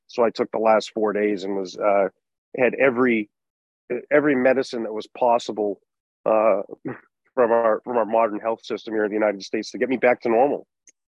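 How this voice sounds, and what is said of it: Slightly raspy voice. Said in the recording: “I got quite sick ... I have a little raspy voice, so I think I'd probably sound extra masculine tonight”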